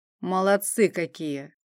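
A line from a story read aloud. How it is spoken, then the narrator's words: Lazy reply. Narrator (Russian): лениво отозвался Асмунд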